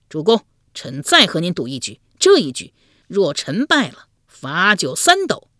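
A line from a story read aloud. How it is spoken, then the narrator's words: Drunk, defiant, loud. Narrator (Chinese): 有些醉了，越醉心中越是不服，高声说道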